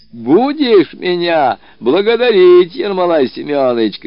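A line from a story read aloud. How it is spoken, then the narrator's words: Shouting. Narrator (Russian): кричал он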